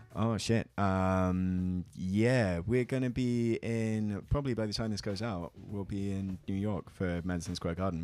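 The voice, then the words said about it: British received pronunciation accent. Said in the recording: “I'm Cambridge, so it's kind of like receive pronunciation BBC style voice ... you don't have a regional accent so much”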